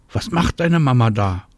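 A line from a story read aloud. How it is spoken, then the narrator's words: Calling out. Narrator (German): ruft Marie Anna zu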